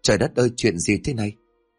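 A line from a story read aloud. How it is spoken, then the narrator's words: Terrified stammer. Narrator (Vietnamese): Ngọc khiếp sợ toàn thân run rẩy, miệng lắp bắp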